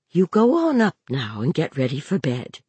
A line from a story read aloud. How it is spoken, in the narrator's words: said quietly